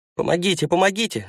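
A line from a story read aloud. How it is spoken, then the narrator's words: Shouted. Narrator (Russian): закричал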